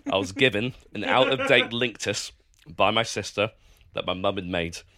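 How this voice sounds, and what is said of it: Hoarse voice. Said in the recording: “my voice is hoarse and I'm coughing frequently”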